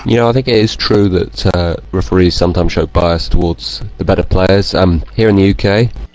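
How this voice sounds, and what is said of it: British North Yorkshire accent. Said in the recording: “You got a damn British accent ... I'm from North Yorkshire.”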